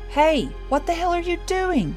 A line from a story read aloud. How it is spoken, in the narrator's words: someone yell